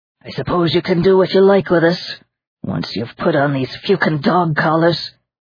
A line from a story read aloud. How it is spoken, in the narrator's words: Aiken said bitterly